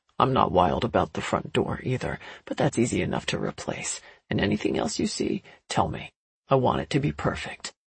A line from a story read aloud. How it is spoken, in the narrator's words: Eager to reassure me that every tiny problem would be corrected, he added quietly